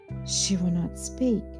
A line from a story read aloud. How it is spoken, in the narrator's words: murmured Mr